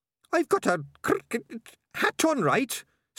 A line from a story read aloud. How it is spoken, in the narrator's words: snapped Sardines